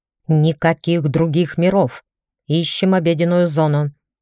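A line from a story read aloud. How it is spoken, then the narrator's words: Employer barking from behind. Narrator (Russian): Мой работодатель рявкнул из-за спины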